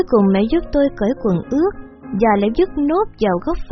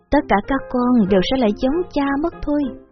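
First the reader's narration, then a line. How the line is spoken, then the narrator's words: Sighing mother. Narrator (Vietnamese): mẹ thở dài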